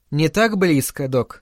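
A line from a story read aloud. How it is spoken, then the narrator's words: Calm. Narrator (Russian): спокойно сказала Венди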